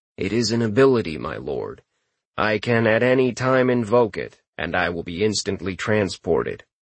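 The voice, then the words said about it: Flat monotone character voice. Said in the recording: “Futin's monotone reply”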